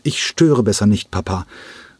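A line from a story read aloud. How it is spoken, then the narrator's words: Calling while walking away. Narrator (German): rief er diesem im Weggehen zu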